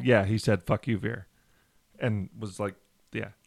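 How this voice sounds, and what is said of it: Put-on thick Indian accent. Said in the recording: “Indian guy. Did he have a thick accent? ... just have an accent?”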